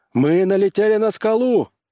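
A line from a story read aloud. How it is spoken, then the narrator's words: Shout. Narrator (Russian): крикнул Корлис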